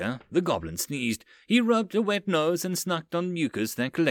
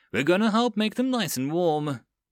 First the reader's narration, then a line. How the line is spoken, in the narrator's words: Eisen laughed as he said over the comms